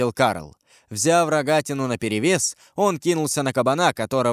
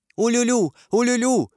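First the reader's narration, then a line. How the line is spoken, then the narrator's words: Shout. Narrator (Russian): закричала герцогиня Наверская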